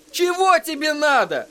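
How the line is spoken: Sudden shout. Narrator (Russian): вдруг крикнул он

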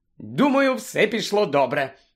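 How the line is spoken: Joyful. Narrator (Ukrainian): радісно сказала Герміона

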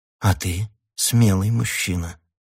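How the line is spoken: Soft, gentle. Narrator (Russian): мягко ответила она

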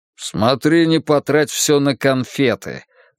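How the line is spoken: Grumbling. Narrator (Russian): проворчал Варгас

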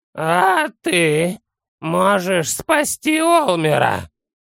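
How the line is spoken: Hoarse. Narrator (Russian): по-прежнему хрипло выговорил Санделла

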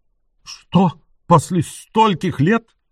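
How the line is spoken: Incredulous exclamation. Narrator (Russian): воскликнул он с недоверием

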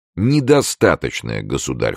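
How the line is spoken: Cold reply. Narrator (Russian): холодно отвечал Д'Артаньян

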